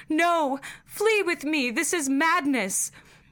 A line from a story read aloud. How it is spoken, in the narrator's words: I cried aloud, and screamed